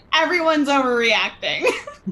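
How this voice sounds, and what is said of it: Imitates another person's voice. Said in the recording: “Good impression.”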